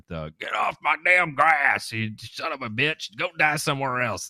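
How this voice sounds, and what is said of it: Put-on Florida accent, angry shouting. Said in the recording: “I like your Florida accent there.”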